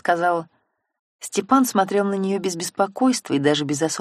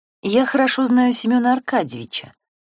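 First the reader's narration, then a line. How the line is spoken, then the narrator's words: Sigh. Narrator (Russian): вздохнула Антонина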